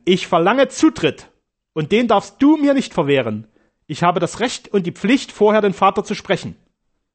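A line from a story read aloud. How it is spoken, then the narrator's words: Stern call. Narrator (German): rief streng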